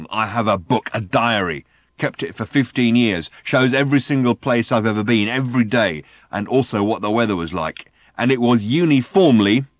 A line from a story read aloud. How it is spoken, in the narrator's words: snarled